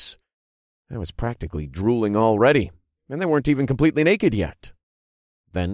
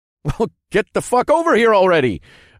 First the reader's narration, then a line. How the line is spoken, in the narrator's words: I laughed